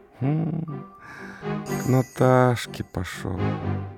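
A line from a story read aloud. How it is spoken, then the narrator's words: Gloomy flat statement. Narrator (Russian): мрачно констатировал студент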